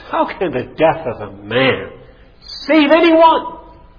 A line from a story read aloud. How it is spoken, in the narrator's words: one of the students asked with a sneer in his voice